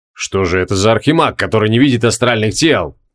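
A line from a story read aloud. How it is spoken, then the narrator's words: Snort. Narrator (Russian): фыркнул Криол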